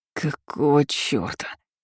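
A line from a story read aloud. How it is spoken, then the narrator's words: Hoarse wheeze. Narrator (Russian): просипел Стас хрипло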